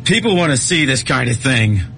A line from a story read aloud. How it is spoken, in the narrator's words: Gibbons shouted after him